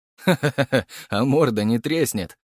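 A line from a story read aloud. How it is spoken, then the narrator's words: Laughing. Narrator (Russian): рассмеялся Гаврилов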